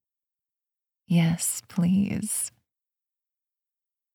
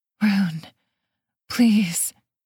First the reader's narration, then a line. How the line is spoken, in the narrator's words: she panted, her body quaking with the effort